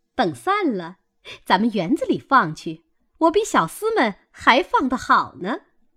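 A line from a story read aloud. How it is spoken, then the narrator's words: Laughing. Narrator (Chinese): 凤姐儿笑道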